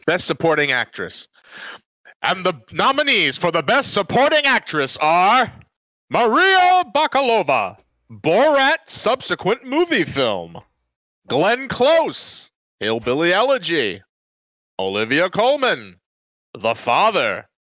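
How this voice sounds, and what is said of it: Announcer voice. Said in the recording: “the announcing voice”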